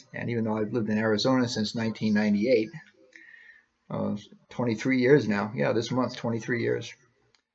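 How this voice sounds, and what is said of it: New England accent. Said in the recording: “I'm from New England ... they tell right away from my accent where I'm from. So it is a dead giveaway.”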